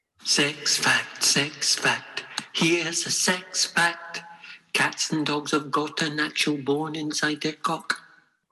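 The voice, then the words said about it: Scottish accent. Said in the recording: “Is that Scottish accent?”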